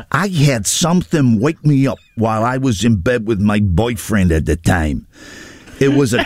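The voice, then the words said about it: Put-on American accent, imitating someone. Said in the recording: “the accent's killing me. He's American. ... It's Al Pacino, isn't it?”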